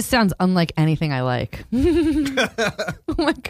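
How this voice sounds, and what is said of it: Usual voice. Nothing is said of it.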